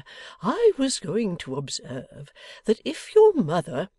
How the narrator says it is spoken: the cherub faltered with something of a craven air

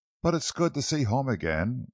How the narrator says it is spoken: Laura sighed at last

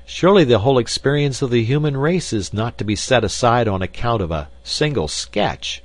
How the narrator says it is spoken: I cried

